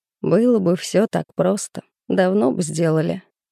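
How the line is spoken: Skeptical snort. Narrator (Russian): хмыкнул Гусев

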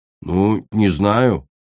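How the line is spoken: Mumbling. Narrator (Russian): промямлил он

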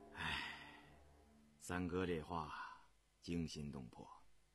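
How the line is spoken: Shivering, sighing after long pause. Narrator (Chinese): 胤禛打了个寒颤，许久才叹息了一声

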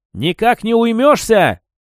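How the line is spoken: Yelling. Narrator (Russian): заорал

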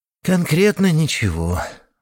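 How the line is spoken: Sighing. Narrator (Russian): вздохнул Юрка

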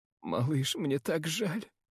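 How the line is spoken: Sobbing, barely articulate. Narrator (Russian): рыдает, едва выговаривая слова

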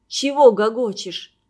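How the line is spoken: Hoarse indignant bass. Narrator (Russian): охрипшим басом возмутился Женька

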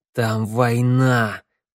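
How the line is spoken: Growl. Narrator (Russian): прорычал Теодор

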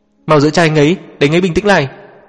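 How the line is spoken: Frightened cry. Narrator (Vietnamese): bác sĩ sợ hãi kêu lên

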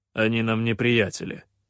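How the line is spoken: Grumbling. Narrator (Russian): проворчал хан

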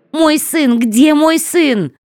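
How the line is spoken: Shout. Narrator (Russian): закричала Шарли

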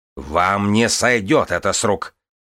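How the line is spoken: Growl. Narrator (Russian): прорычал Маркриф Малкасиан

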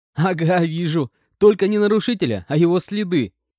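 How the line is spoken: Laughing agreement. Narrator (Russian): Рассмеявшись, согласился я

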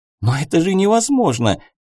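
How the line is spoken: Young woman exclaiming. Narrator (Russian): воскликнула девушка

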